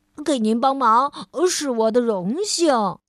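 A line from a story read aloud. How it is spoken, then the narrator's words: Smiling. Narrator (Chinese): 白雪先生笑着说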